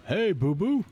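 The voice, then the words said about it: Yogi Bear impression. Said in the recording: “this is my impersonation of Yogi Bear”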